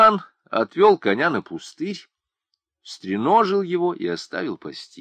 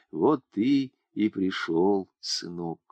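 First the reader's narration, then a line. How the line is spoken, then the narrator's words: Weak whisper of dying mother. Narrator (Russian): Мать лежала худая и слабая, не в силах сделать движение, сухие обтянутые губы шептали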